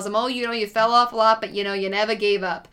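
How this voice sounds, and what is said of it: Weak put-on Bronx accent. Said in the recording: “What was that accent? That was like Bronx. ... You're not even trying. ... I'm doing a Bronx accent”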